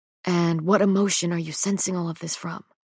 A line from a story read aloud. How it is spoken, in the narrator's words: He asks quietly